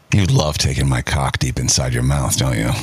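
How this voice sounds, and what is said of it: Sexy, seductive voice. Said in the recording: “say one of the earlier ones in the sexy voice”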